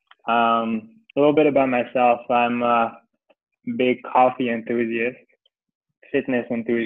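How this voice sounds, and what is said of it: French accent. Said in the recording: “if you hear the accent, that's because I'm French. So I'm French and American.”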